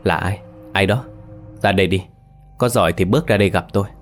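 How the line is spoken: Nervous muttered questions. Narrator (Vietnamese): miệng không ngừng lẩm bẩm hỏi

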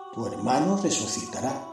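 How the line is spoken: Plain. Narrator (Spanish): le dijo Jesús

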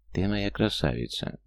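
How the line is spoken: Soft, smiling. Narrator (Russian): мягко улыбнулся он

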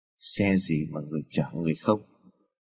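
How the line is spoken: Muttering. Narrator (Vietnamese): người đón xe bên đường ... lẩm bẩm

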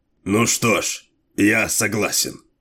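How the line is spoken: Sour grumble. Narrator (Russian): кисло пробурчал

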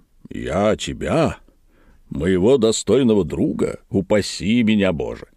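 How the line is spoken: Plain. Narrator (Russian): ответил Тригомен

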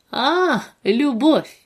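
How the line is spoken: Interrupting snort. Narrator (Russian): хмыкнул тот же парень, перебив Диму

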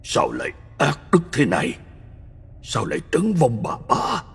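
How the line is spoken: Shocked old man mumbling. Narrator (Vietnamese): Ông thảng thốt lẩm bẩm

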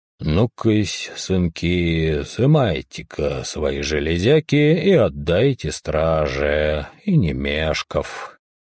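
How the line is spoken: Quiet. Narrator (Russian): Старшина негромко произнес

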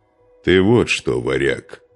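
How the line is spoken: Stern. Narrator (Russian): строго произнес Нурман

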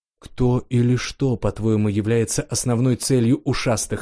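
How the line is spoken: Plain question. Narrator (Russian): спросил я

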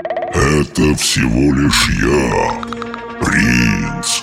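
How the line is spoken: Hoarse rumbling dragon chuckle. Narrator (Russian): Проговорил хриплый, ракочащий голос, и дракон хохотнул

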